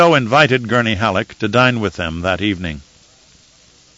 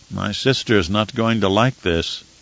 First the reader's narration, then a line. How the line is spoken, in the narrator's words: Romber muttered